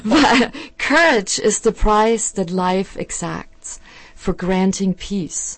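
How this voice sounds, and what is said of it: German accent. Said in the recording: “I apologize for the German accent.”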